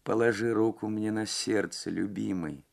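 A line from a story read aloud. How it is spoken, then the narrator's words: Clear faint distant voice. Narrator (Russian): сказала она ясным, но еле слышным голосом, прозвучавшим точно издалека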